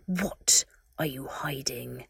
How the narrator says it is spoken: Voldemort hissed

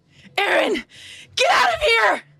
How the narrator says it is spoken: Mikasa, preparing for the finishing blow on Berthold, yells

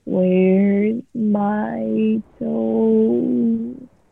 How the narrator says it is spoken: It groaned

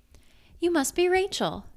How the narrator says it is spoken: exclaimed Haley

